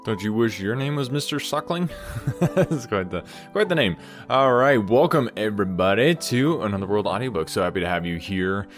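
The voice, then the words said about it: Voice slightly off, congested. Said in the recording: “My voice is a little off from normal... Just getting over a little bit of cold.”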